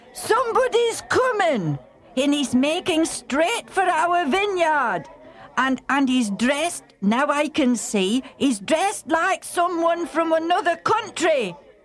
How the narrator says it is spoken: the man stationed on the watchtower called out to the busy tenant farmers

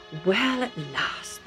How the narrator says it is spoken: Isaac said

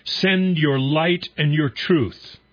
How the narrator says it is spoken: we raise a shout

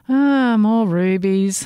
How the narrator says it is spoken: she said with a bored yawn

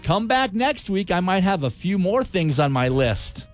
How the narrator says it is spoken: you ... yelled

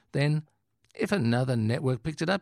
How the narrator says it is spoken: he says earnestly

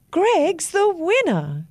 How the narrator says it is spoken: the judge shouted out

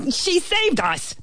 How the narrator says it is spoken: the ant bellowed

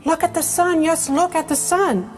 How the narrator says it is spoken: cried Mrs

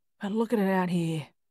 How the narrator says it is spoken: Frank said with a sigh

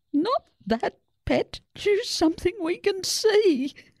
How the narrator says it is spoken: Mabel's dad giggled

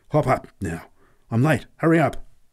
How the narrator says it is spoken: exclaimed urgently

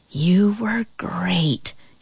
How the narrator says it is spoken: she whispered

